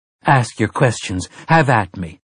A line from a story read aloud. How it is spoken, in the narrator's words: Mia said